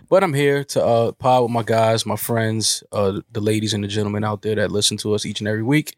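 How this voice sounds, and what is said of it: Nasal, congested sick voice. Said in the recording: “I am a little under the weather. I'm a little nasally. ... I'm a little nasally, a little under the weather.”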